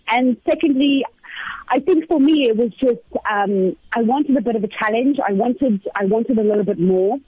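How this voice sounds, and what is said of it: Speaks with a noticeable accent. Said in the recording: “because of your accent ... I didn't realize that I have an accent ... yes you do.”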